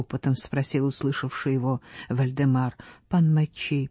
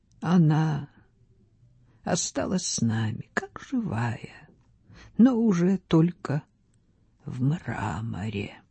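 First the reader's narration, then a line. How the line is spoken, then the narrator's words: Sad. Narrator (Russian): Он произнес печально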